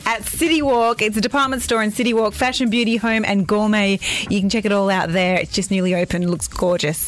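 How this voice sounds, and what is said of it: Strong Australian accent. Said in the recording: “I have a horrendous Australian accent.”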